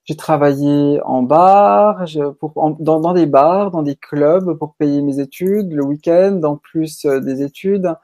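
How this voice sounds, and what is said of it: Slight Swiss French accent. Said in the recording (French): “je suis d'origine suisse ... s'il y a un petit accent qui ressort”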